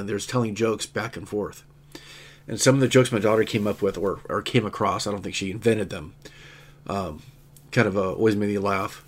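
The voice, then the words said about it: Nasal, congested voice from cold. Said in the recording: “Especially my nasally cold right now.”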